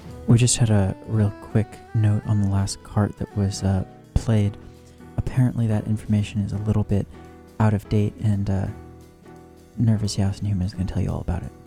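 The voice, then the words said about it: Whispering into the mic. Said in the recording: “whisper into the mic like this”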